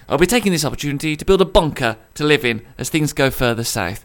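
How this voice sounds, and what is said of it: Strong Brummie accent. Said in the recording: “my borderline unlistenable Brummie accent”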